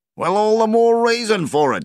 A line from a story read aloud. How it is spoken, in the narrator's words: yelled Donnie